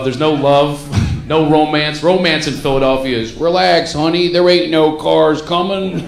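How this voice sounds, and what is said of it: Philadelphia accent. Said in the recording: “my Philadelphia accent”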